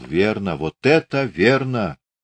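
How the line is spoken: Mumbled. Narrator (Russian): Иван Алексеевич слушал, чуть приоткрыв рот, от напряжения часто мигал, бормотал

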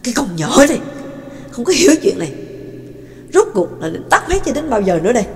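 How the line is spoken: Angry speech. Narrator (Vietnamese): Trắc Mộc Cường Ba cáu tiết, giận dữ nói

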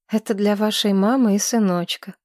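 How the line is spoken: Gentle, affectionate hostess. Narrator (Russian): сказала хозяйка ласково

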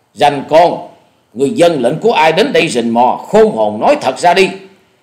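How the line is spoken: Loud reply. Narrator (Vietnamese): Dạ Điểu Thần Ma lớn tiếng đáp lời

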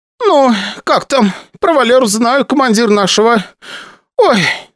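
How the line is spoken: Speech breaking into sobs. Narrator (Russian): сказала Васильевна и тут же разрыдалась

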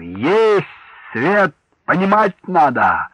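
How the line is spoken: Shout. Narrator (Russian): Николай прокричал

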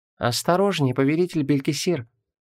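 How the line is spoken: Quiet. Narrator (Russian): негромко произнесла Шамара

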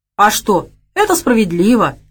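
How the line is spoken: Chubby man exclaiming. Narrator (Russian): воскликнул толстячок

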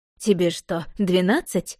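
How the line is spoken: Scoffing snort. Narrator (Russian): фыркнула ма

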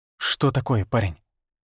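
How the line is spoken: Barely audible animal yelp. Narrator (Russian): Горностай еле слышно тявкнул

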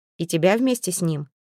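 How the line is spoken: Mocking snort. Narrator (Russian): хмыкнул Свен, насмешливо прищурясь

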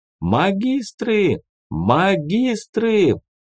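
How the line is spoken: Loud shouting. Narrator (Russian): громко кричать

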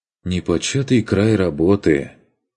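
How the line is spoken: Rueful sigh. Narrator (Russian): Сокрушенно вздохнул он

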